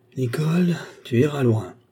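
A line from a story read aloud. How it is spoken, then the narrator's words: Sighing. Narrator (French): soupira-t-il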